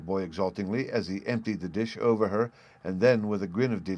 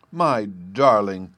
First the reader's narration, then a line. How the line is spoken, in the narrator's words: cried his mother